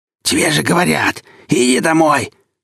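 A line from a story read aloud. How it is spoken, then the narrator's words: Hoarse declaration. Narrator (Russian): хриплым голосом заявил он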